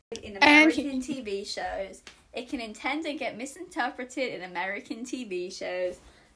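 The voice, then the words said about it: Monotone put-on British accent. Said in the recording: “start us off with a British accent ... That was so monotone.”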